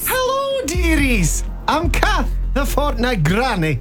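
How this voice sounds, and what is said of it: Bad put-on Scottish granny voice. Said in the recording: “Terrible Scottish accent.”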